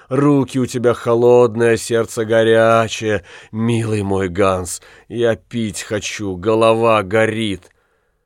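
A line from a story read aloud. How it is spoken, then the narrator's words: Groaning reply. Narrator (Russian): Котлина простонала ему в ответ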